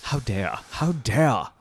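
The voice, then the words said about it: Imitates another person's voice, fuming. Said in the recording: “he's over there just fuming ... That's my impression of him.”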